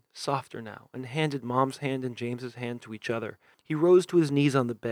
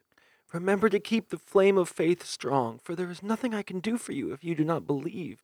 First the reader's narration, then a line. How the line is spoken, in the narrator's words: Mom moaned